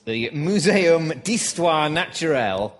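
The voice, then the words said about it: Bad French accent. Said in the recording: “That's a very bad French accent.”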